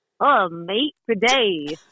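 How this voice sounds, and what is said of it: Decent put-on Australian accent. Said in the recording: “your best Australian accent? ... no, that is not bad ... I'm doing an Australian accent, A plus.”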